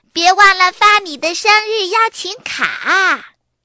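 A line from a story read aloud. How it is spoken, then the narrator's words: Loud reminder. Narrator (Chinese): 妹妹多拉大声的提醒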